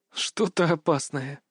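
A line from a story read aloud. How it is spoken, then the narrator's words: Whisper. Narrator (Russian): прошептала Илона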